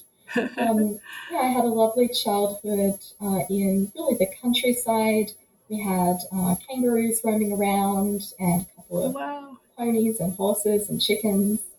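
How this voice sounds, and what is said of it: Australian accent. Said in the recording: “I'm Australian by birth, as might be revealed by my accent.”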